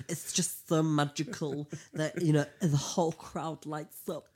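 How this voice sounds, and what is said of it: Imitates another person's voice. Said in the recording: “She didn't sound anything like that, by the way, but this is my impression.”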